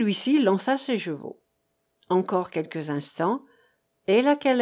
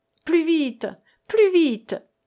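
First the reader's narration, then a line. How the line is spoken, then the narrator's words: Urgent shout. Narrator (French): cria-t-il au postillon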